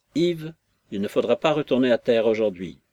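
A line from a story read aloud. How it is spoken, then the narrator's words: Brusque commanding tone. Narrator (French): je lui dis d'un ton de commandement brusque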